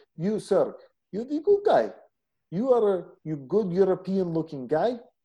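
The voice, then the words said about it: Imitated Russian woman's accent. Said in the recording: “she's from Russia ... I got to do this thing to get my accent going”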